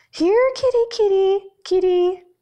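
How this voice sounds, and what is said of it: Falsetto calling voice. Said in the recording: “The father calls in falsetto”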